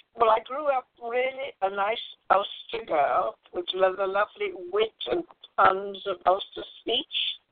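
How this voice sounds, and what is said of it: British English accent. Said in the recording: “Sorry about my British accent ... it really should have been a Northern Ireland accent, an Ulster accent”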